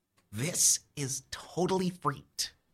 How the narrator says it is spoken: Jake whispers

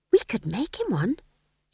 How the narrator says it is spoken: she added wistfully

